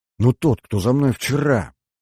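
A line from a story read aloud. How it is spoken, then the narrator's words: Flustered whisper, young woman. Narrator (Russian): сбивчиво зашептала девушка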